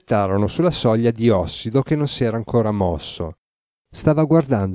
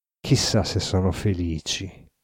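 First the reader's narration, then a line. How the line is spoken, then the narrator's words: Muttered through teeth. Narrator (Italian): mormorò fra i denti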